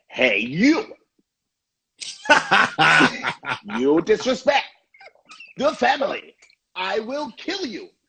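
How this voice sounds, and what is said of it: Imitates dubbed kung fu movie voice. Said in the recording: “kung fu movies where the, the lips were going one way the voice was going somewhere else ... can i do my impression”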